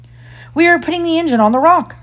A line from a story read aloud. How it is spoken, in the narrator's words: Smee called out